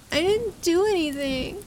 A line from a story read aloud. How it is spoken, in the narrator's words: he wailed